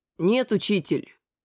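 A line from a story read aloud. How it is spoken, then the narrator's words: Calm. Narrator (Russian): Сказал спокойно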